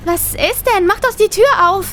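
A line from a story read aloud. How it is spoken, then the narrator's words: High-pitched voice. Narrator (German): sagte meine Cousine mit hoher Stimme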